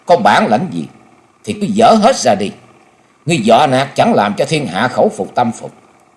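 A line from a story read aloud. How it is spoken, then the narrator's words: Loud raised shout. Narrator (Vietnamese): Dịch Hương Trúc cao giọng quát lớn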